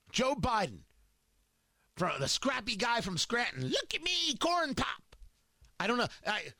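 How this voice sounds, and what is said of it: Poor imitation of another person's voice. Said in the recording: “terrible Biden impression... I thought that was awful... an impression of producer Ari doing an impression of Joe Biden”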